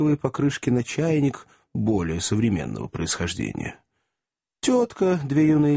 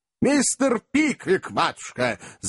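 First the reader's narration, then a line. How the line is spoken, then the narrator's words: Yelling at full voice. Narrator (Russian): заорал во весь голос мистер Уордль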